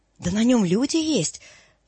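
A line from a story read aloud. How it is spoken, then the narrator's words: Exclaiming. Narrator (Russian): воскликнул Торчаков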